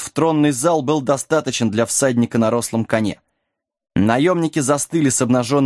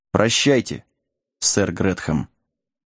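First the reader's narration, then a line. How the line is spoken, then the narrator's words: Quiet reply. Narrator (Russian): Джек тихо ответил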